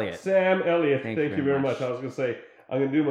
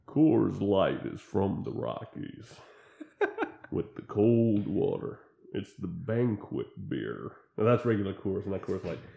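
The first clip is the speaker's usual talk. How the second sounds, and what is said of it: Imitates another person's voice. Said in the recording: “my best Sam Elliott imitation ... That's not bad ... It's lame.”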